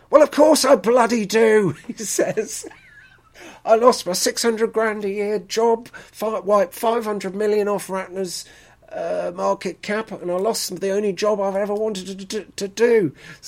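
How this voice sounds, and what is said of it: Impression of Gerald Ratner. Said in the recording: “I hope my impression of him is accurate... Gerald Ratner”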